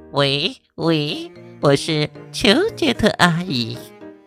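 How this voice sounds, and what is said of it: Pinched-nose fake female voice. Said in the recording (Chinese): “捏着鼻子假装女生的声音”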